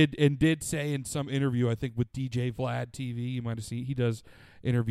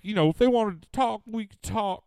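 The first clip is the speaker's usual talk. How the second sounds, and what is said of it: Bad impression of FBG Duck. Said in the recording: “That's a bad FBG Duck impression.”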